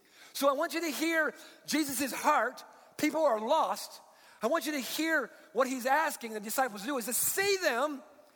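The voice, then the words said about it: Yelling, loud urgent preaching. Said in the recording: “that's probably why I'm yelling right now”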